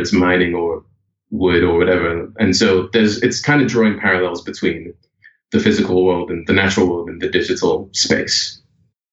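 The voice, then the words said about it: British accent, rising sentence endings. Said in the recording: “British accent ... The accent that I'm using now is kind of a trying to fit in Canada. I do more of the question tone thing where my voice goes up at the end of sentences.”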